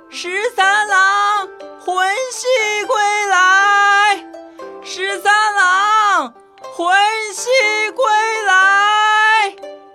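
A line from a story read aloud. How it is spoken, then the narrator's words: Shrill calling. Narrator (Chinese): 原耀 尖着嗓子喊魂儿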